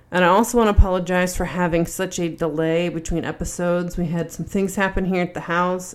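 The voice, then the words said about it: Sick voice with heavy breathing. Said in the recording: “I got sick again. You can probably hear it in my voice. I feel like I'm breathing like Darth Vader, but I sound like Ned Flanders.”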